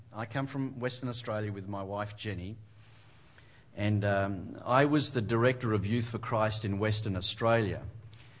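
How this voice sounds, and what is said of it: Australian accent. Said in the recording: “as you can tell from my accent... no, that's not a Canadian accent”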